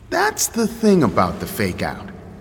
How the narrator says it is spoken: I said

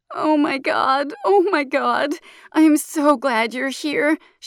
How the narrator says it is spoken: she slurs

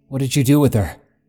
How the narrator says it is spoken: I demanded, suddenly, in frustration, surprising not only myself with my tone of aggression

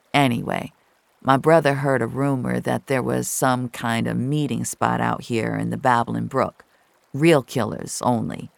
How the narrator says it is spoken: someone said

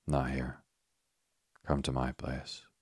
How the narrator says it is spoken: murmured, suddenly sobered at the sight of a passerby who had eyed the group with an obvious air of suspicion

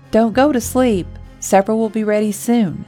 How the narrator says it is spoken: yelled over her shoulder

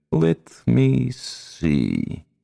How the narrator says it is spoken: murmured

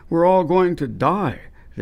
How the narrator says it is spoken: they cried

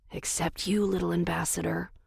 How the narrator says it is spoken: I whispered to Daphne

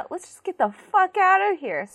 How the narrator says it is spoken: Sophie cries

